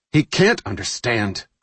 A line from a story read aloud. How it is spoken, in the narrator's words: Goodley said harshly